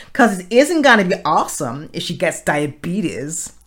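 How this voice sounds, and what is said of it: Weak put-on American accent. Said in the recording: “my American accent is so gone. I haven't done acting for years”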